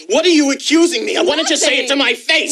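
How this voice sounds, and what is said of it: Loud, angry yelling. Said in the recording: “Just lower your voice. ... You said you wouldn't yell in front of the baby.”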